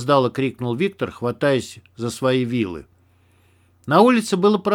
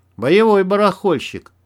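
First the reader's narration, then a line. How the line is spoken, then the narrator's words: Respectful grunt. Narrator (Russian): уважительно хмыкнул Макс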